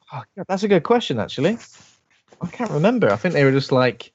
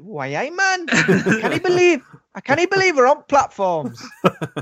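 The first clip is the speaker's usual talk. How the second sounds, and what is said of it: Put-on Geordie accent. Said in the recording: “I want bloody Geordie accent.”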